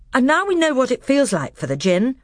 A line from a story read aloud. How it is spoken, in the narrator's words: said Edmund with a chuckle